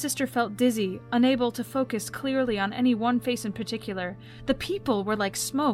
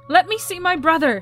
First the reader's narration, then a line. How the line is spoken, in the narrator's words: she demanded, her voice strong despite her trembling hands